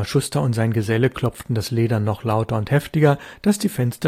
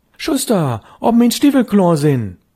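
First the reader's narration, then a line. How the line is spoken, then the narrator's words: Calling louder. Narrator (German): rief schon lauter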